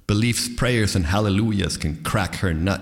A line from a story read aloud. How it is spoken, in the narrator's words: he added with a sneer or chuckle, not untinged by pathos